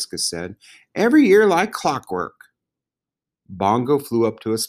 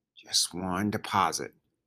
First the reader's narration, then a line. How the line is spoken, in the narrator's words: she said under her breath